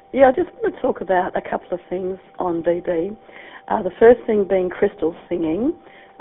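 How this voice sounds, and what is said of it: Rough, throat-affected voice. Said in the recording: “Excuse the voice, but I've got a bit of a throat incident.”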